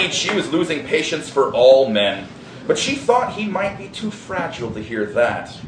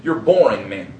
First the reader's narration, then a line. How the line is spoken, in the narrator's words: she said irritably